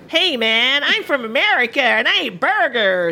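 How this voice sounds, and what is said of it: Put-on American accent. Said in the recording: “let's hear your American accent... Is that what I sound like to you?... For you, that was actually quite good.”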